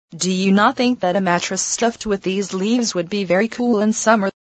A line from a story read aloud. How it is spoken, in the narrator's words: she answered in the same jocular tone